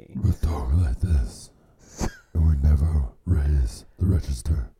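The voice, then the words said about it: Deliberately very low-pitched voice. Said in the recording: “My voice is really, really low.”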